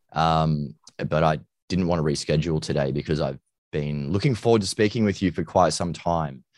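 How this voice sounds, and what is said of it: Deep, husky voice from illness. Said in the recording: “my voice sounds a little bit deeper and huskier and sexier than usual. It's because I'm a little bit unwell.”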